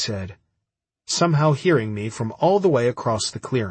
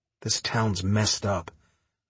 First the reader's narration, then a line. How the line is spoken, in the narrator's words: I mumbled to myself